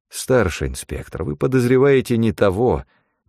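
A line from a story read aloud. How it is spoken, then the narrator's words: Sad sigh. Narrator (Russian): печально вздохнул я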